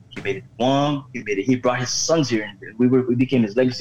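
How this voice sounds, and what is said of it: Island accent mixed with American hip-hop. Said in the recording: “I spoke an accent ... my accent is a combination of like island talk and LL Cool J.”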